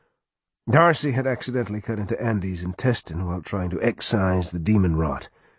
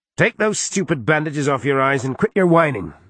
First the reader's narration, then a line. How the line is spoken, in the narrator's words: she snapped